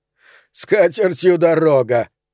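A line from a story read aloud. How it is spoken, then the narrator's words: Laughing. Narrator (Russian): рассмеялся Пономарь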